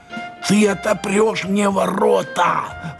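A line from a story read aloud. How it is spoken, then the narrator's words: Very quiet whisper, father. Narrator (Russian): прошептал папаша еще тише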